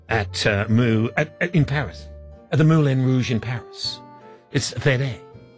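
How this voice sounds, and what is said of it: Put-on French accent. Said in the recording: “are you doing an Italian accent ... That's my French accent.”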